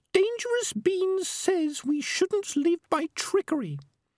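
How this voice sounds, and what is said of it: Squeaky character voice. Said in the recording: “said the squeaky voice”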